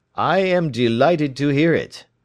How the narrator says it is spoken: he said

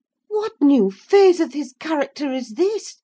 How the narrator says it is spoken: exclaimed Mrs

